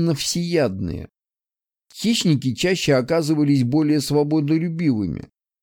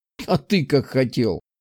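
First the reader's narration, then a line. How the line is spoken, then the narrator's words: Laughing. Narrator (Russian): засмеялся я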